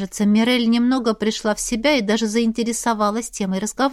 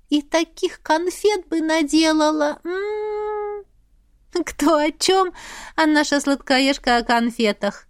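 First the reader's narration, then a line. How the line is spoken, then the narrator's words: Laughing. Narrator (Russian): засмеялась я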